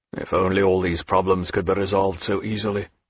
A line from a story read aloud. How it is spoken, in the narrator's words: murmured Jack